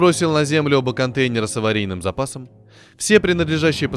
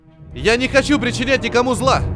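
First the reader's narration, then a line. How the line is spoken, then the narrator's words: Shouting. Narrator (Russian): закричал Гиб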